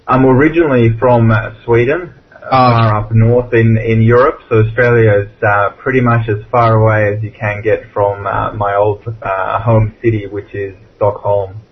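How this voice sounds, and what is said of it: Australian-accented English. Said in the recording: “you've developed the Australian accent by now.”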